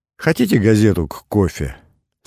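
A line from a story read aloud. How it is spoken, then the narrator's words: Plain. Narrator (Russian): спросила девушка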